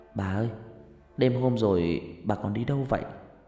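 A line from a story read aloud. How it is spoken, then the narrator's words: Soft question. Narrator (Vietnamese): khẽ hỏi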